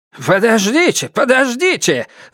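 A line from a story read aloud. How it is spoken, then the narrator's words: Old man shouting. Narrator (Russian): закричал старый Фэй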